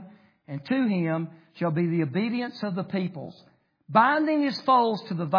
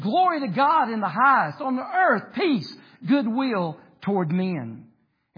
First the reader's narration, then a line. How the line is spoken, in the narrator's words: the angels cried out and they said